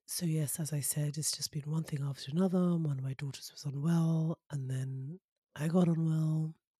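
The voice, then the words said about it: Hoarse, deeper voice from a cold. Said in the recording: “losing my voice a bit ... recovering from some crazy cold cough situation. And my voice feels a bit hoarse ... my voice tends to get even deeper than it is”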